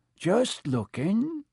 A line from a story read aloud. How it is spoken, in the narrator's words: he said in a shifty voice